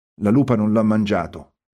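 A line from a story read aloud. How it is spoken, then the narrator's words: Murmured. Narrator (Italian): mormorò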